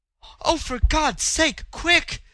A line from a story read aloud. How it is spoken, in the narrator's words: she cried, pale with fear